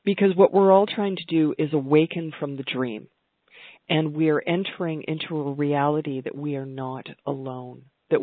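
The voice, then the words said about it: Voice with a cold, throat-clearing. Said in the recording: “I have a bit of a cold, so I'm having to clear my throat a little bit”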